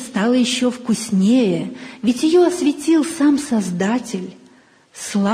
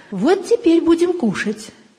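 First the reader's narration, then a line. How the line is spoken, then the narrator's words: Cheerful, smiling grandmother. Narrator (Russian): бабушка улыбнулась и бодро добавила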